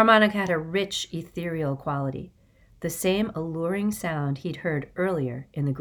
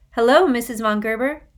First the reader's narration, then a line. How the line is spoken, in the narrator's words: he called out